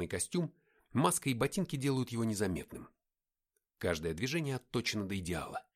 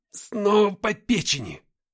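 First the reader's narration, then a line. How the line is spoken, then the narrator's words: Growl. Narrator (Russian): прорычал я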